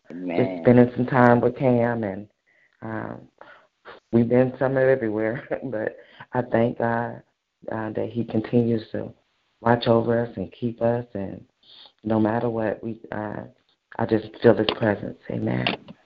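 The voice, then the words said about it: Whispering. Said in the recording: “it's pretty early, so that's why I'm whispering.”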